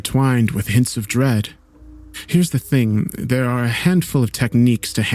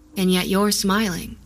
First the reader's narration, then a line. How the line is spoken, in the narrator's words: she answered